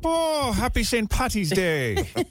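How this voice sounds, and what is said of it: Put-on Irish accent. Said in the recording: “Where's your Irish accent?”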